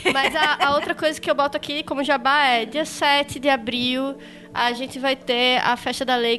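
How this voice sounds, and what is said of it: Recife Brazilian Portuguese accent. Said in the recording (Portuguese): “tem um lindo sotaque, coraçãozinho, tem mesmo, gente. ... Recife agradece.”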